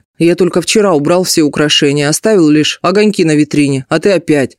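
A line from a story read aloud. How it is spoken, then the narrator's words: Grumbling. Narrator (Russian): проворчал Герман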